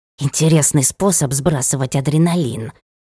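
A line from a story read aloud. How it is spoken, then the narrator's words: Hissed. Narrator (Russian): прошипел он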